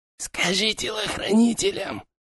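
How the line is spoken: Quiet hiss. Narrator (Russian): Негромко прошипел хан

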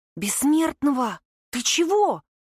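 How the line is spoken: Worried whisper. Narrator (Russian): Таня, зашептала обеспокоенно

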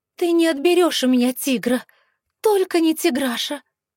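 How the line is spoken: Pleading. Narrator (Russian): Взмолилась

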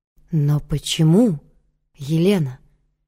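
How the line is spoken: Whisper. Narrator (Russian): прошептал Дамон

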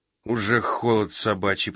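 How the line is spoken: Grumbled. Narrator (Russian): проворчал Фридман

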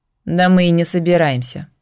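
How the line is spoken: Snort. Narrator (Russian): фыркнула Тамми

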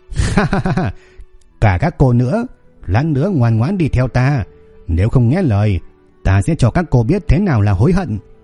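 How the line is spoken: Leering loud laugh. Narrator (Vietnamese): gã chỉ nhếch miệng cười, rồi cười lớn

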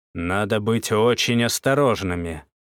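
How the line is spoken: Stern sergeant. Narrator (Russian): строго заметил сержант

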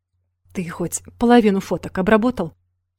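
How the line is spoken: Displeased grumble. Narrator (Russian): Недовольно буркнул он

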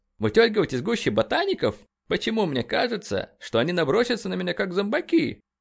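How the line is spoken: Laughing. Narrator (Russian): Бёрнс засмеялся

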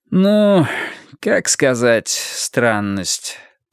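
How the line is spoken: Drawling. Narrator (Russian): протянул он

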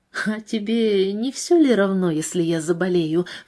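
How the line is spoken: Ingratiating question. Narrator (Russian): вкрадчиво спросила она

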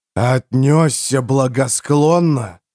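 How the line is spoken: Duke growling. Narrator (Russian): прорычал герцог

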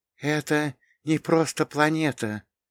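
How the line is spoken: Whisper. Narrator (Russian): прошептала Лея, впитывая каждый образ

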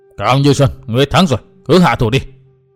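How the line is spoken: Angry. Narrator (Vietnamese): Huyết kiếm môn chủ giận dữ nói

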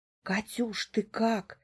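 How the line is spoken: Young woman, near-whisper. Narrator (Russian): едва ли не шепотом проговаривает девушка

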